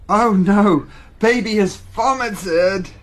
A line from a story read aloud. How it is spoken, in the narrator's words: cried Big Brother